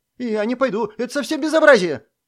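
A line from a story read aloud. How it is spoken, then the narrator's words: Rapid man's chatter. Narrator (Russian): затараторил мужчина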